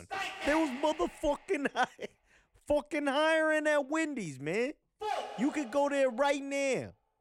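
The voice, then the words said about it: Put-on New York accent. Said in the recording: “I don't know what accent that was, but he was from New York. I got to put some more stank on that one.”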